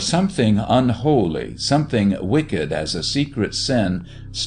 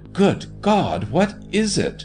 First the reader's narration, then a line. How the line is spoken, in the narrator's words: He gasped